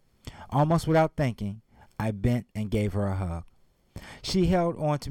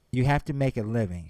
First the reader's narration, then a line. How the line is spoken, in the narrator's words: she answered